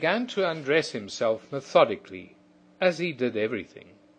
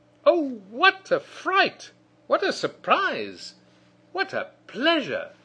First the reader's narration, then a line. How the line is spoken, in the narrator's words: exclaiming